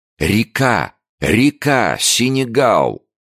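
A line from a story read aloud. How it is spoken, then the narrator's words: Joyful shout. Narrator (Russian): доктор радостно закричал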